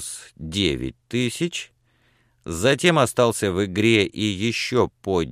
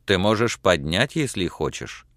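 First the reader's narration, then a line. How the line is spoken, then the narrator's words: Plain. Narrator (Russian): ответил Кернс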